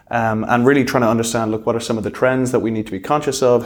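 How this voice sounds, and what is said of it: Irish Dublin accent. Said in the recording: “clearly not a local Hong Kong accent you've got right there ... Whereabouts in Ireland? ... Dublin”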